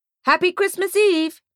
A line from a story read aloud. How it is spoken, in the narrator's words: he shouts